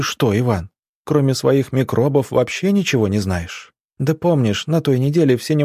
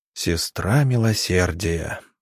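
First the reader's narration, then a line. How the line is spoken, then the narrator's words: Quiet drawl, doctor. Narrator (Russian): негромко протянул доктор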